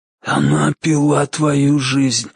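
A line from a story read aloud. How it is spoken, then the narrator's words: Hoarse whisper. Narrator (Russian): хриплым шепотом объяснил маркиз Карабас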